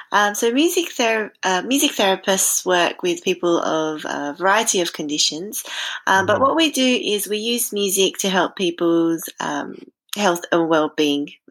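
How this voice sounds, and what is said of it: Australian accent. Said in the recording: “I'm sure you can tell from my accent, I'm from Australia”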